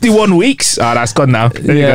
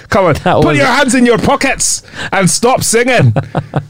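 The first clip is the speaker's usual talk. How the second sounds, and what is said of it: Put-on Scottish accent. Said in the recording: “That's the best Scottish I've done ... That was the best Scottish accent you've done today.”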